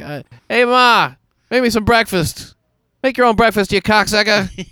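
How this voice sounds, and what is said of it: Put-on Boston accent, slipping. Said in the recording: “So much in Boston, uh, people really use words like that ... see, the accent does break down.”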